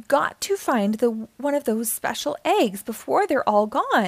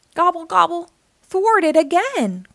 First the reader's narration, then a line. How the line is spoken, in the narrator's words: groaned Turkey